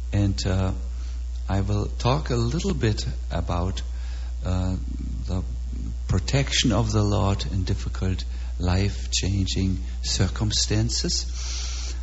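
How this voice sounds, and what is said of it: Heavy German accent. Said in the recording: “my heavy German accent”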